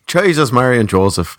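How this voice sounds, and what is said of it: Put-on Irish accent. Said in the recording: “that's the only way I can get into an Irish accent”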